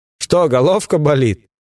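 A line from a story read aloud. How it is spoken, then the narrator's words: Mocking group laughter. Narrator (Russian): засмеялись матросы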